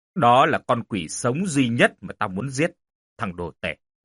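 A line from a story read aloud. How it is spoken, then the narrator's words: Quiet, low voice. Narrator (Vietnamese): Mãi sau Quân mới nhỏ giọng rồi nói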